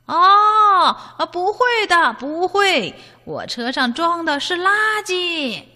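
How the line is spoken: Loud answer. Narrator (Chinese): 大象叔叔 他大声的回答

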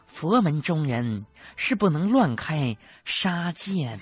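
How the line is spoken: Sighing. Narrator (Chinese): 师傅海洋叹了口气说

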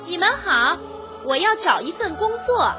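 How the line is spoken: Hurried shout. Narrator (Chinese): 约翰连忙喊道

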